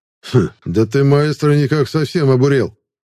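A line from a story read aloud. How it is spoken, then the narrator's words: Amused grunt. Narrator (Russian): хмыкнул Лукаш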